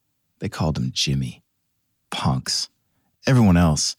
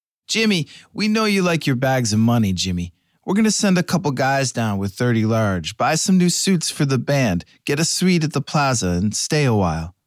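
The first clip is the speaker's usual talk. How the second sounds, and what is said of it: Italian-Brooklyn gangster accent. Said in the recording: “The voice crackled over the backstage phone ... The accent, a mix of old-school Italian and 1970s Brooklyn.”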